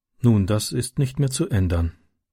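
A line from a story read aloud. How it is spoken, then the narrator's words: Said sadly. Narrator (German): sagte sie traurig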